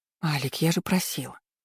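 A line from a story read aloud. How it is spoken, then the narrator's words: Indignant, hoarse. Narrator (Russian): Возмутилась сипло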